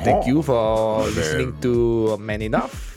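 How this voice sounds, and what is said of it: Bad put-on French accent. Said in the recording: “This is the worst accent in the history... I try to be sexy, but it's terrible... speaking with a terrible French accent”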